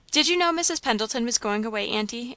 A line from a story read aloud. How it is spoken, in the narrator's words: asked Ruth, hastily